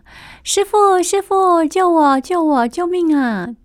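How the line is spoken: Calling out. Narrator (Chinese): 有人叫了

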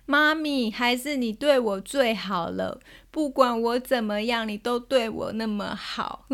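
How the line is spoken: Pouting, crying child. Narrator (Chinese): 他就憋着嘴，然后一边哭跟我说

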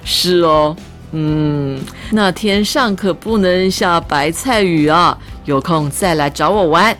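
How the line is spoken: Hearty laughter. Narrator (Chinese): 于老板哈哈大笑说

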